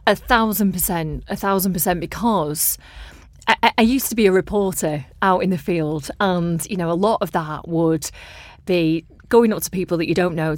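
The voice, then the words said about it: Lancashire accent from Blackburn. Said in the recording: “your accent and the fact that you're, you know, you're from here ... you're from Blackburn”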